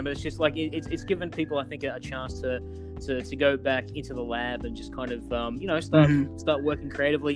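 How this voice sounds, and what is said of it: Australian accent. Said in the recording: “from my accent, I'm from Australia ... I'm not quite Steve Irwin. I'm more kind of Hugh Jackman, I think, is the accent”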